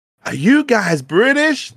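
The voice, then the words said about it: Put-on American accent. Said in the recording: “This is my American accent.”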